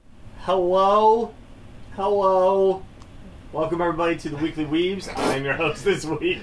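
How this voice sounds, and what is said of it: Scared, hesitant-sounding greeting. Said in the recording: “Why did you sound so scared?... You came in like, hello?”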